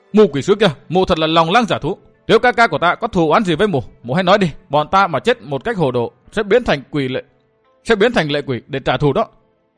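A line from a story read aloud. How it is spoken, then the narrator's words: Impatient roar. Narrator (Vietnamese): Sự Hắc Thanh không nhẫn nại được nữa, gầm lên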